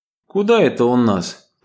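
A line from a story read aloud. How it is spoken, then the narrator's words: Casual tone hiding worry. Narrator (Russian): поинтересовался Иван у Евгении, как бы, между прочим, стараясь за небрежным тоном скрыть беспокойство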